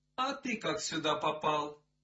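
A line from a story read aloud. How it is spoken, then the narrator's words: Plain. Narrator (Russian): спросила она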